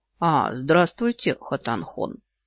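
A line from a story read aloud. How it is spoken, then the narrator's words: Low rumbling bass, huge man. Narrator (Russian): ракочет тихим басом человек-гора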